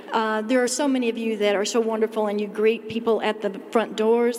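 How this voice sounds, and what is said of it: New York City-sounding accent. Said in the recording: “I know my accent sounds like I'm from New York City”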